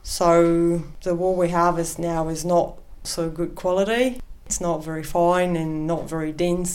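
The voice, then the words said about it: Accent with New Zealand influence. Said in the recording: “I can't help but notice your accent. I think you've got a link with New Zealand.”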